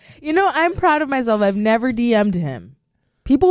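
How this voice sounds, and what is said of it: Usual voice. Nothing is said of it.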